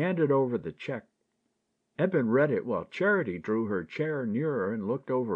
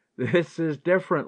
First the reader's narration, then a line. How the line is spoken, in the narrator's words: laughed Ted